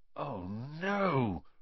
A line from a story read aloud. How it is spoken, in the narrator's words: Ron gasped